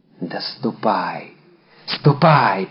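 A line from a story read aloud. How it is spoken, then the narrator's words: Whisper. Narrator (Russian): прошептала она вслед своему деверю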